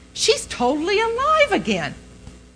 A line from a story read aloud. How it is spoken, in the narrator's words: they cried repeatedly